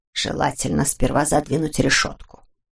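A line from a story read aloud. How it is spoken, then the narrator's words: Quiet prompting. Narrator (Russian): негромко подсказал он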